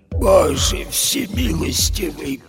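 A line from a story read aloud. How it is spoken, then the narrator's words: Whispered. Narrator (Russian): прошептала она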